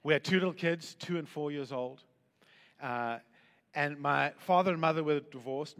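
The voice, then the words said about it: South African accent. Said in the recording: “We were in South Africa, hence the accent”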